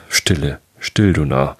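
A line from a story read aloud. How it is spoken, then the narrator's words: Plain. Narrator (German): antwortete er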